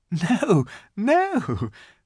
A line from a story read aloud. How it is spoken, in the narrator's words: said Lucy, laughing